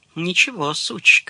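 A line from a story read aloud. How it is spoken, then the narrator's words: Whispered. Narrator (Russian): шептала она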